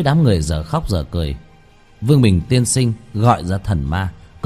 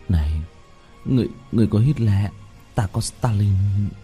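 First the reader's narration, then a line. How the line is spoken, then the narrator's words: Muttering. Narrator (Vietnamese): Mọi người lẩm bẩm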